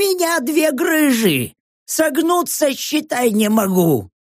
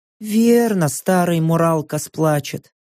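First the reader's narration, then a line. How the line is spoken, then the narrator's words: Sighing. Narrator (Russian): Снова вздохнула первая прачка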